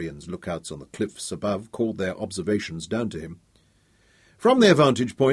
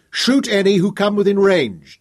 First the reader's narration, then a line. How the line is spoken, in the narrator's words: Dorian shouted back